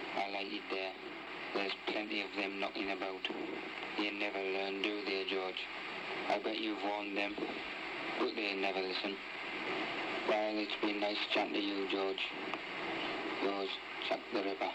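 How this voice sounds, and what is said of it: Sunderland accent. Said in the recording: “he's addressing the police in a Sunderland accent”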